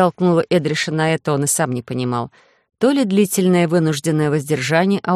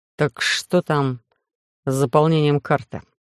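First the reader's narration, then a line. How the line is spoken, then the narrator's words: Reluctant grumble after panting. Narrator (Russian): неохотно проворчал, когда пропыхтелся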